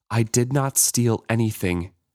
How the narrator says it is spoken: she said in a quivering voice

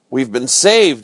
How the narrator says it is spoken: I cried

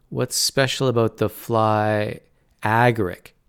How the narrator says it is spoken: Tanner said, pronouncing the word slowly

